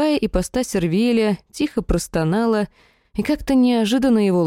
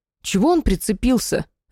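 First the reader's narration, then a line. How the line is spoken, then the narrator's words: Indignant question. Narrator (Russian): возмущенно спрашиваю у Дарая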